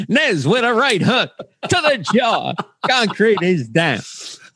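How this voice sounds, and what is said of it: Howard Cosell impression. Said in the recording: “that's the best impression I've seen of Howard Cosell I've ever heard”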